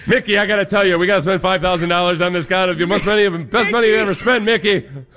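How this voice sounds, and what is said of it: Old-school baseball scout voice. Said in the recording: “talking like a baseball scout”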